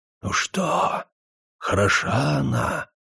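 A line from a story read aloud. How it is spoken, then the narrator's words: Whisper right in the ear. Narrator (Russian): прошептал в самое ухо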